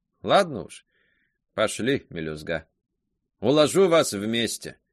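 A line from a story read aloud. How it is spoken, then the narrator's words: Grumbled. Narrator (Russian): Она проворчала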